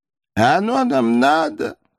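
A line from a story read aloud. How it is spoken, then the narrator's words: Trying to sob. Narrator (Russian): попробовала вновь разрыдаться Рахиль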